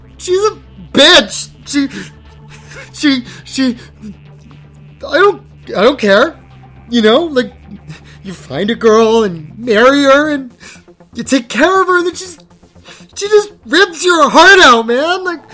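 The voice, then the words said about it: Loud drunken slurring, fake crying. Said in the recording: “I screamed as loud and drunkenly as I could ... my best drunk bro impression ... trying to make it look like I'm crying”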